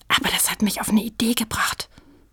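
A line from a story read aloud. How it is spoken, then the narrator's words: Whispered. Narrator (German): flüsterte Sprotte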